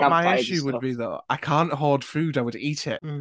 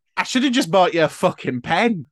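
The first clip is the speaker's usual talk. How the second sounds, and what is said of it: Northern English accent. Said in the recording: “Don't know why I did it in a Northern accent”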